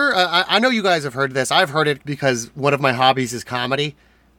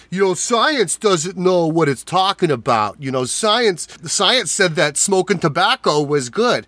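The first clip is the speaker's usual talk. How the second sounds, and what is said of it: New Jersey accent comedian impression. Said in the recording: “based on the accent, I know exactly which comedian you are mimicking ... it's fairly accurate ... a dumb New Jersey guy”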